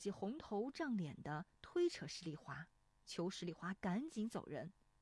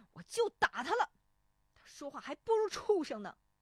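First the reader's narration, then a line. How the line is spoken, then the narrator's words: Angry. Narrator (Chinese): 石丽华怒声说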